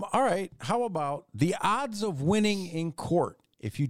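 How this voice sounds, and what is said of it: Usual voice. Nothing is said of it.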